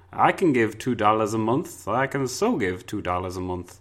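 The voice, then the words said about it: Exaggerated put-on accent. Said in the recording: “you won't put on such a wondrous accent as that”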